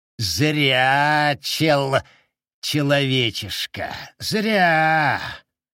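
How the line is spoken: Louder hiss. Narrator (Russian): Прошипел еще громче

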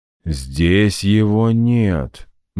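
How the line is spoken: Gloomy reply. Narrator (Russian): мрачно ответил я

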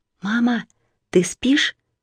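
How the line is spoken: Soft call. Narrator (Russian): тихонько окликнула Марина

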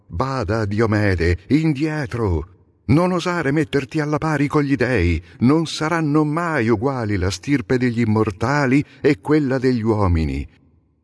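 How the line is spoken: Shouted. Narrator (Italian): Apollo gridò

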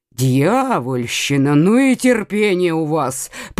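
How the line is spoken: Furious grumble. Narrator (Russian): пробурчал, яростно

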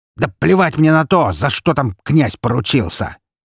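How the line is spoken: Fat man's bark. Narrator (Russian): рявкнул толстяк

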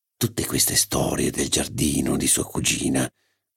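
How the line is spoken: Whispered. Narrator (Italian): bisbigliò

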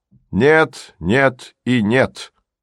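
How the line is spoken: Loud. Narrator (Russian): громко сказал Херман

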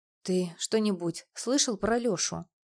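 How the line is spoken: Sighing. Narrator (Russian): Он вздохнул

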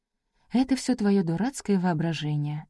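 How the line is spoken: Whispering to herself. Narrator (Russian): шепотом сказала она себе

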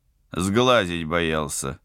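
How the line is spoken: Amused grunt. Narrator (Russian): хмыкнул пилот

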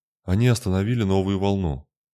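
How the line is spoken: Weary reply. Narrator (Russian): устало опустив плечи, ответил Трент

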